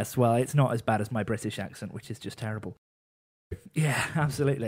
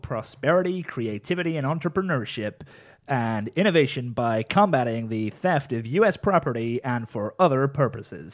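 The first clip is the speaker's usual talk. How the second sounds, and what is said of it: Bad put-on American accent. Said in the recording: “in a really bad American accent ... That was probably the worst American accent I have ever heard.”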